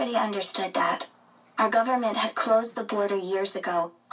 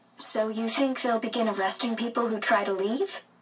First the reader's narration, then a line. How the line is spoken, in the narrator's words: Mama asked